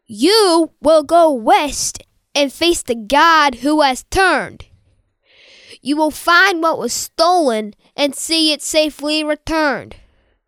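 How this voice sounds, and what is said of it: Put-on New York accent. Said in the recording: “you included a New York accent as you redo Gabe's line”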